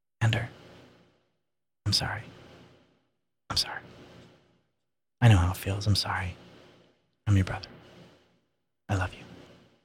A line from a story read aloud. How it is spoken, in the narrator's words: He whispered